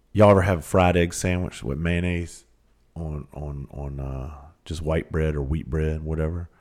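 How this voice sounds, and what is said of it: Smooth Southern country accent. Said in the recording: “I'm going to tell y'all some country ass shit right now... with my accent, the way that I talk, I sound like smooth country butter”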